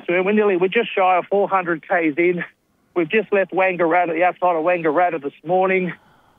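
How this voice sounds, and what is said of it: Slightly out of breath. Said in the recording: “I'm a little bit out of breath”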